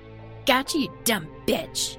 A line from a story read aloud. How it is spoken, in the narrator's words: spat in her face